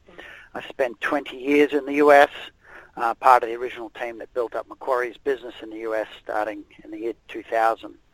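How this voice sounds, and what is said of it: Australian accent. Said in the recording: “My Australian accent probably gives it away. I'm originally from Australia.”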